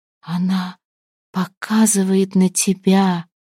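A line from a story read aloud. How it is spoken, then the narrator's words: Entranced whisper. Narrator (Russian): зачарованно шептала Мирава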